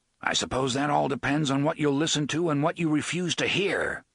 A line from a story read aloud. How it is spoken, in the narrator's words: Roland said, a trifle sharply